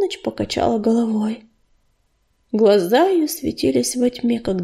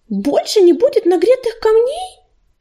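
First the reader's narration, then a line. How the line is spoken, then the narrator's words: Terrified squeak. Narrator (Russian): пискнула белочка и голос ее был полон ужаса как крик брошенного котенка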